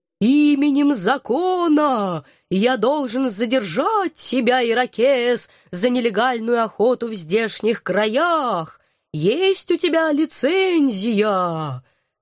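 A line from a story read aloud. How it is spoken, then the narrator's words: Sepulchral shout in the ear. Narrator (Russian): могильным голосом злого духа крикнул он мне в самое ухо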